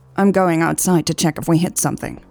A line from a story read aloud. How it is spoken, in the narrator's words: Hobbs said